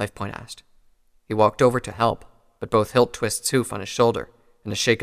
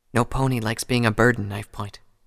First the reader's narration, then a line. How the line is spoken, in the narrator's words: Hilttwist said softly